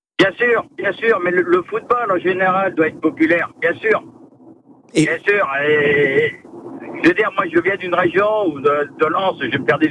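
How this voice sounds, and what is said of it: Northern French regional accent. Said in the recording (French): “j'entendais à votre accent, effectivement, oui, je sentais à votre accent que vous étiez de là-bas”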